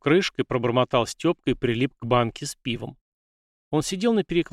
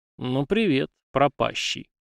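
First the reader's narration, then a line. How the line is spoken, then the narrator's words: Vague snort, then speech. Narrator (Russian): полковник Суворов неопределенно хмыкнув, произнес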